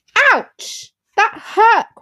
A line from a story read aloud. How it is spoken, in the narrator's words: cried Bunny